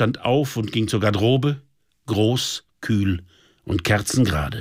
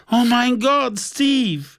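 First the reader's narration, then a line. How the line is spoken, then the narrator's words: Sobbing. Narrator (German): schluchzte auf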